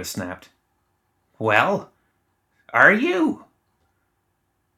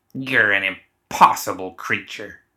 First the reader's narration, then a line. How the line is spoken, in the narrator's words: she spat